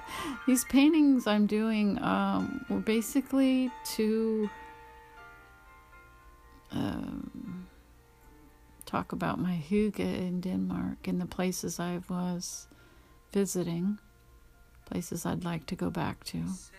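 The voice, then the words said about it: Choked-up, emotional voice. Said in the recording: “I'm all choked up.”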